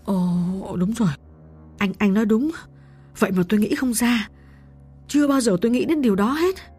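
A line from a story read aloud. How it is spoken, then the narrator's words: Shocked, trembling reply. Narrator (Vietnamese): Diễm giật mình tái mặt, lạnh toát cả người, run run đáp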